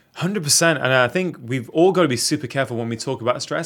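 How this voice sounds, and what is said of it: British accent. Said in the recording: “British term ... he's going to have a cool accent.”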